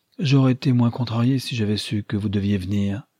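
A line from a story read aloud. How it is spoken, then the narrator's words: Cheerful. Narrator (French): ajouta-t-elle gaiement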